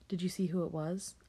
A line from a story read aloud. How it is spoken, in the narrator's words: I asked